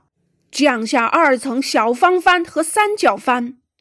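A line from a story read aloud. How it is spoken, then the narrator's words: Loud shout. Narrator (Chinese): 约翰·孟格尔大声叫道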